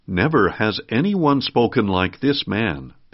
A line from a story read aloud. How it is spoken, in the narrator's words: the officers answered